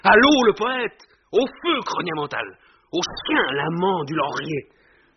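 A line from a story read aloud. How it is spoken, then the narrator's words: Shouting amid laughter. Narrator (French): On cria parmi les rires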